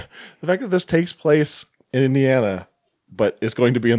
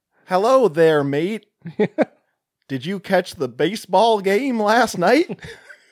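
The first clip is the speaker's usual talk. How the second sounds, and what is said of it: Deliberately bad American accent. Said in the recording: “a lot of terrible American accents”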